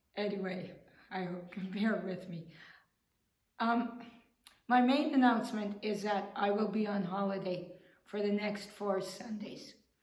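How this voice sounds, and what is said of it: Strained voice from throat trouble. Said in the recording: “excuse my voice. I I don't know quite why what's happened to my throat or my vocal cords, but it might have something to do with air conditioning.”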